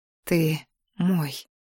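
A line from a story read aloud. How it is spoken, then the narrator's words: Quiet. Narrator (Russian): тихо сказала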